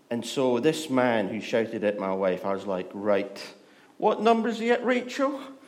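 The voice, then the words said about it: Scottish accent. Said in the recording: “I am Scottish. ... this accent ... Scottish accent's beautiful when it's annoyed”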